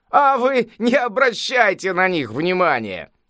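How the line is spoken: Laughing old sage. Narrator (Russian): рассмеялся великий мудрец

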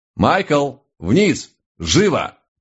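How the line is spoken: Booming steely voice. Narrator (Russian): Прогремел на весь дом стальной голос моего наставника

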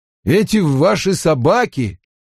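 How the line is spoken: Loud. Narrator (Russian): громко произнес Перин

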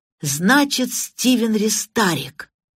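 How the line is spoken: Joyful exclamation. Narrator (Russian): радостно воскликнул сержант Лейк

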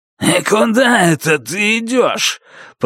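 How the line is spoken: Growling. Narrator (Russian): прорычал он

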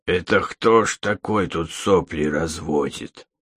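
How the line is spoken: Hoarse voice close by. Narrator (Russian): раздался над ухом хриплый голос

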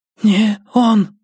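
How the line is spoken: Thin frightened voice. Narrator (Russian): сказал Шульман тонким испуганным голосом

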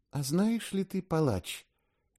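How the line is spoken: Tender cooing. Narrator (Russian): нежно проворковала она

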